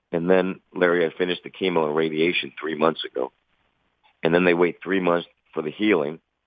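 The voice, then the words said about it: Voice sounds a little strange. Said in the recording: “if you hear my voice is a little strange, it's because I still have throat pain”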